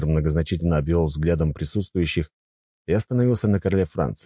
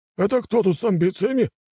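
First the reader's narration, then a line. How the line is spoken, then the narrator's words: Exclaiming. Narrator (Russian): воскликнул Луи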